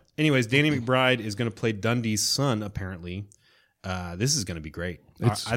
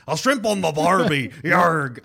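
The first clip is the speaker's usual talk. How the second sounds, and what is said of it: Put-on Australian accent, pirate-like. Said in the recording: “It's Australian, mate. You gotta squinch up your face. ... I'm like a pirate when I go Australian.”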